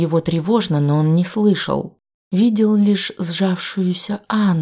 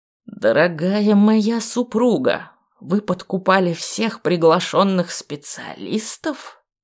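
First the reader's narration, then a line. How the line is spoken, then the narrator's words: Snakelike hiss. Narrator (Russian): Змеёй прошипел герцог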